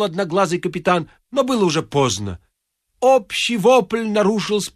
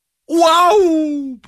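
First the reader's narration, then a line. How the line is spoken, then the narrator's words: Drawn-out group groan. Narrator (Russian): протяжно стонали шахматисты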